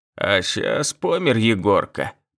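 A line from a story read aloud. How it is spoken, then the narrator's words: Elderly man grumbling. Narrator (Russian): пробурчал инженер по охране труда, пожилой усатый мужик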